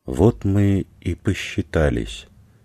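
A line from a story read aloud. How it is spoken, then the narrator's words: Almost tender, coldly clinical. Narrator (Russian): голос Томы прозвучал почти нежно, как у ветеринарши, усыпляющей старую злобную псину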